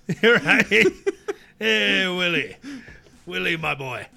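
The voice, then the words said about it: Put-on accent. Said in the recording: “I don't know why I'm saying in that accent.”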